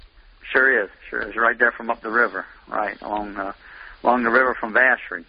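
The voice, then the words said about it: Louisiana accent. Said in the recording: “I can tell by your accent that you're living in Thibodaux, Louisiana”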